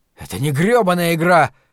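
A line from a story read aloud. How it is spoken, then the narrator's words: Exclaiming. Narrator (Russian): воскликнул Ларри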